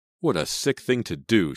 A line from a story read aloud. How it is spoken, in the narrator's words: she exclaimed